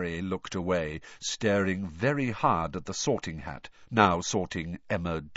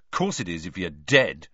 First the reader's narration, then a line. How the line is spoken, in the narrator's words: snapped Ron